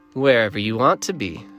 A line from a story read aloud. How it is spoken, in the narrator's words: she said